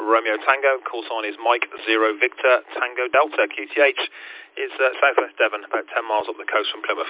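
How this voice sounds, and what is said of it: Birmingham accent. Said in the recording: “a lovely Birmingham accent”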